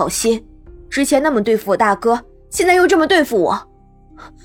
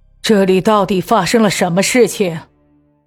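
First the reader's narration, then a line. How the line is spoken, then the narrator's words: Deep grave question. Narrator (Chinese): 人群之外传来一声低低的咳嗽，有人沉声发问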